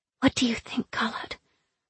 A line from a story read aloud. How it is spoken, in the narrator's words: Zoya whispered